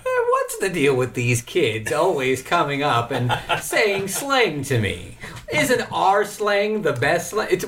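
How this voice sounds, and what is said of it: Imitates another person's voice. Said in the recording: “Can I do an impression? ... What is his name? Andy Rooney?”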